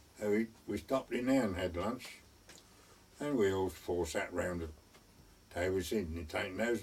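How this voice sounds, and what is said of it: Elderly man's Suffolk-type accent. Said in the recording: “that lovely Suffolk accent”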